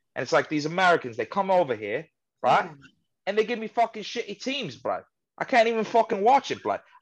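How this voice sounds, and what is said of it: Put-on accent. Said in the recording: “Wilson hates my accent.”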